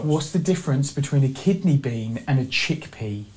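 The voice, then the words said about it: Thick British accent. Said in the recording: “there's a British accent that's kind of hard to hear through, but it's thick, dude. It's thick.”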